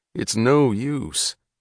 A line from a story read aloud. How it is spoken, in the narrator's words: said the conductor softly